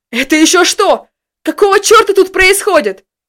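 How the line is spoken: Furious yelling. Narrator (Russian): в бешенстве заорал Том

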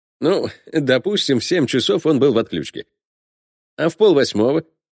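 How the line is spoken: Question after laughing. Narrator (Russian): Посмеявшись, спросил он

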